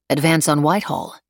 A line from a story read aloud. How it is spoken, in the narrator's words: Emily said flatly